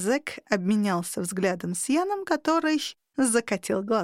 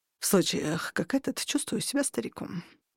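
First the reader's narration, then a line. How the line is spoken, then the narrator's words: Mumbling. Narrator (Russian): пробормотал Ян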